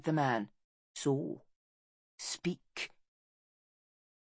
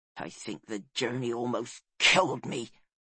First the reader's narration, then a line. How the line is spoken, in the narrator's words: he grumbled